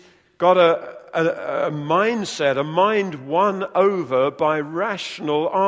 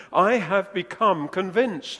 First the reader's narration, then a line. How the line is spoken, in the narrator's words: says